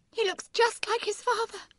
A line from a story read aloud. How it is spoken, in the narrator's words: she said tearfully